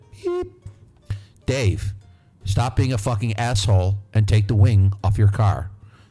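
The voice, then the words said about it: Imitation of a voice assistant. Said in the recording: “my impression of Alexa. I can't do a very good one.”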